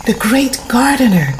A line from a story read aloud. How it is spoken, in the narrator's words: came the excited murmur